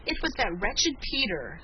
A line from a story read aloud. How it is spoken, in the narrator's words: sobbed Felicity indignantly